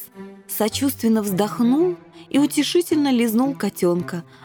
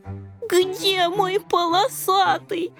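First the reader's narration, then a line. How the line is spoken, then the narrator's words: Whimpering. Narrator (Russian): Захныкал рыжий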